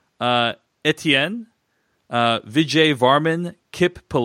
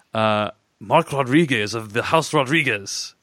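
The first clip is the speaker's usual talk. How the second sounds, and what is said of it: Rough Oberyn Martell style accent. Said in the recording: “It's supposed to be pronounced in Oberyn Martell style accent. That's pretty ... bad. ... It's pretty rough.”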